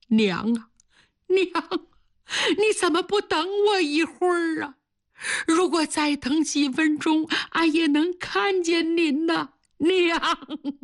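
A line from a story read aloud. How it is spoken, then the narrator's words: Loud grief-stricken wailing. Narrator (Chinese): 他抱着刚刚咽气的娘放声大哭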